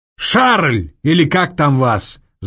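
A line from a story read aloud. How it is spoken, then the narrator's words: Booming bass yell. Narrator (Russian): зычным генеральским басом заорал Соболев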